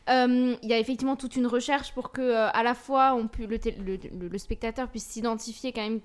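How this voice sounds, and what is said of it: Alsatian French accent. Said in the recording (French): “On est en Alsace. ... d'avoir spoken mon accent”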